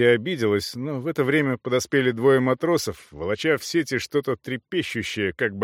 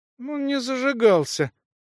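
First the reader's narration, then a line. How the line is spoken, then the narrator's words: Babbling, faltering. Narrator (Russian): пролепетала Джеди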